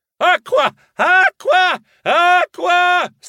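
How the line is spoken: Shrieking. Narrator (Italian): strillai

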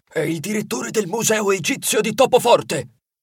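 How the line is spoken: Whispered. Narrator (Italian): Coprendo il microfono con la zampa, sussurrò

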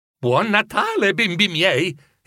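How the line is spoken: Beaming exclamation. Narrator (Italian): esclamò Bob con un sorriso radioso

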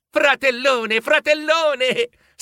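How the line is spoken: Happy shriek. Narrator (Italian): strillò felice

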